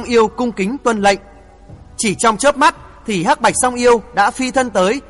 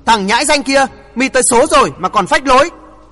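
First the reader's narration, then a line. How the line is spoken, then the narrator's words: Furious yelling. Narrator (Vietnamese): Thiên thủ ma vương Đặng Siêu bất giác máu nóng cuồn cuộn dâng lên như lửa đốt, lão thét lớn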